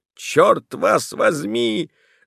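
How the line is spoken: Beast grumbling. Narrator (Russian): заворчал зверь

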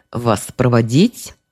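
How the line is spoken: Restrained, firm guard. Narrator (Russian): проговорил охранник сдержанным, но непреклонным тоном

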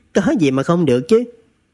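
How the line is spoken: Smiling. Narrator (Vietnamese): Trần Thực mỉm cười

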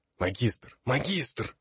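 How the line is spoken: Whispered call. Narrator (Russian): шепотом позвал я

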